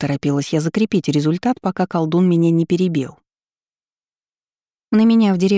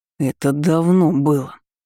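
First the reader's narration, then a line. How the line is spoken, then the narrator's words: Growling sorcerer. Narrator (Russian): прорычал колдун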